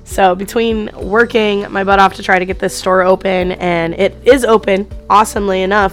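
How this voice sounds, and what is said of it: Hoarse, nearly lost voice. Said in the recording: “my voice is practically gone. I've been sick for the last week.”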